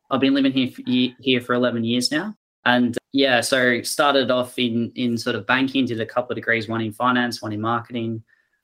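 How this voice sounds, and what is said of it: Australian accent. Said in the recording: “as you can probably tell by the accent, originally from Melbourne, Australia”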